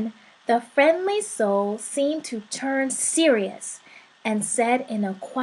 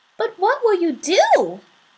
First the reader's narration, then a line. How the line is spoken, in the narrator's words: asked, just a little nervously